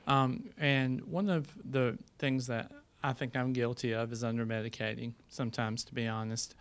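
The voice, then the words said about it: Southern US accent. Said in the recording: “I'm a pediatric nurse practitioner from South Carolina, if you can't tell from my accent.”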